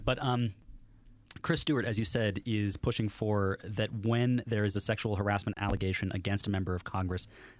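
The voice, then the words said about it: Hoarse, failing voice. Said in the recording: “sorry, I'm losing my voice here for a quick moment”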